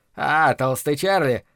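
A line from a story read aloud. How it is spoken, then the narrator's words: Unpleasant laugh. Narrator (Russian): неприятно хохотнул Грэхэм Хорикс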